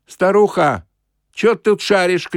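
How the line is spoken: Shout. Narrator (Russian): крикнул кто-то

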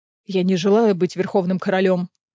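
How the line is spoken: Dry reply. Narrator (Russian): сухо ответил Рис

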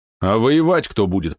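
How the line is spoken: Displeased grumble. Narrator (Russian): проворчал недовольный Лосев

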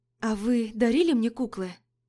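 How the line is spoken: Plain. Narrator (Russian): спросила я

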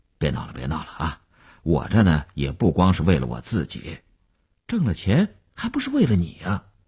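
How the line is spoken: Brief laugh, then restrained. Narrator (Chinese): 刘文庆笑了一下，及时收住说

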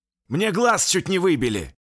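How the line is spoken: Near shout. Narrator (Russian): почти выкрикнул Егоров

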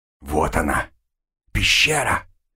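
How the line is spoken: Whispered. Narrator (Russian): прошептал Авангур

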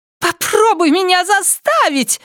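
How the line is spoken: Shrill shout. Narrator (Russian): визгливо крикнула она

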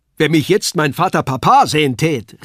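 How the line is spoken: Calling out. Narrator (German): rief er

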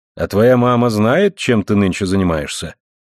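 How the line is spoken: Plain question. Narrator (Russian): спросил мистер Такер

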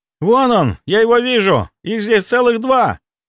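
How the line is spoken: Shout. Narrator (Russian): закричал Сеня

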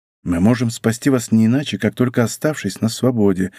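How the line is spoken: Quick quiet whisper. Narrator (Russian): быстро и тихо шепнул ему Д'Артаньян

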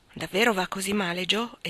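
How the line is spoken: Surprised exclamation. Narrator (Italian): esclamò Lori, sorpreso

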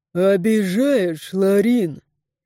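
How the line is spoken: Deep bass voice. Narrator (Russian): Пробасил воин

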